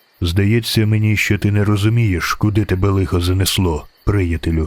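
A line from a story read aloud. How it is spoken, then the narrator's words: Calm stranger. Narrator (Ukrainian): Спокійно сказав незнайомець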